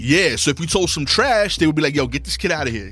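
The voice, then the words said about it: East New York accent. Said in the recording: “I didn't change up my accent. It's still real East New York. That's what I sound like”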